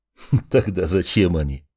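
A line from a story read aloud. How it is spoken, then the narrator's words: Laughing reply. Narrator (Russian): рассмеялся в ответ Андрей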